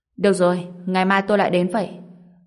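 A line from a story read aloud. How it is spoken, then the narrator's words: Displeased tone. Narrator (Vietnamese): Ông chủ Trịnh nói với giọng không vui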